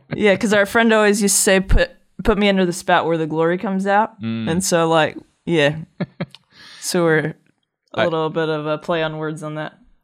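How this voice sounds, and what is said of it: Texas drawl fading toward New Zealand accent. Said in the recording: “You're starting to get the accent. I've noticed it on a few different occasions. ... She's losing her Texas drawl.”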